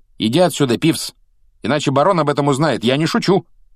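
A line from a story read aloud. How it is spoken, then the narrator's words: Sharp, stern tone. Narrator (Russian): резким тоном произнес Перси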